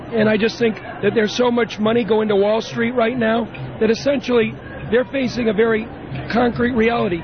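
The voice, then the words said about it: Hoarse, strained voice. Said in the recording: “you can tell I've lost my voice”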